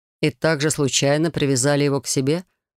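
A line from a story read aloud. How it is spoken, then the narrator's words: Scoffing snort. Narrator (Russian): хмыкнул Райт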